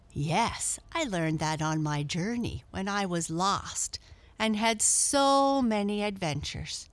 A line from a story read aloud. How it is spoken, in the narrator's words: cried Blackie